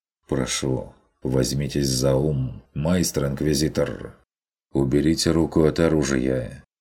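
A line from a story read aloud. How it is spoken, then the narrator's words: Calm. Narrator (Russian): спокойно произнес он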